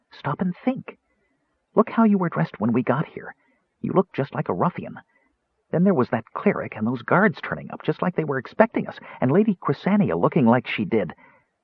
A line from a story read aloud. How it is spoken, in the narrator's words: Tass whispered